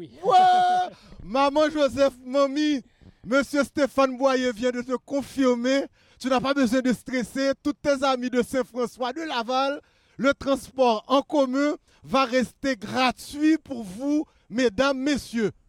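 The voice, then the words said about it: Put-on Haitian French accent. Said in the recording (French): “Je l'ai dit avec mon accent haïtien”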